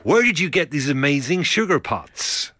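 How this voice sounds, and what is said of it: Put-on American accent. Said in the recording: “Excuse the accent.”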